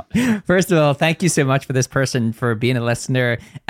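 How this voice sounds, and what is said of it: Fast Northern Irish accent. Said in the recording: “my accent is a problem ... I do speak fast. It's also a Northern Irish thing ... my accent is quite different”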